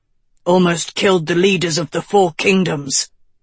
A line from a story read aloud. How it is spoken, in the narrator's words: Lancelot snarled